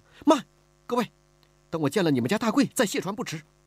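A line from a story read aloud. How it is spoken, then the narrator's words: Anxious, urgent. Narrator (Chinese): 李婉儿急了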